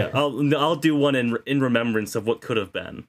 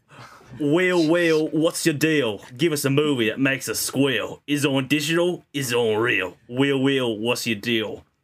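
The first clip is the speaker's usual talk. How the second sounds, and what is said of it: Put-on British tough-guy accent. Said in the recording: “do a British accent for it... It was more of a Jason Statham... Yeah, it really was a Jason Statham right there.”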